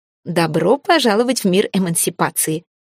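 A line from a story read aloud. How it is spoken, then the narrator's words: Scornful snort. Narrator (Russian): фыркнула я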